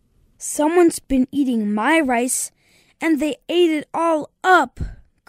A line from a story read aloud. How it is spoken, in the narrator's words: cried the baby bear